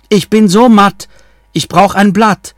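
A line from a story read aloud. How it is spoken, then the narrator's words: Calling out. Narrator (German): rief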